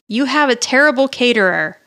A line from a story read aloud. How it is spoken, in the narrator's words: Angela yelled